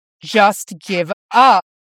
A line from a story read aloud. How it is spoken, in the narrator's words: Jason told him through gritted teeth, his helmet making the words come out low and distorted